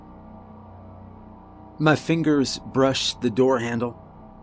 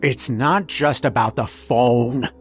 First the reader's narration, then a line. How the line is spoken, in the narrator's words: he hissed at me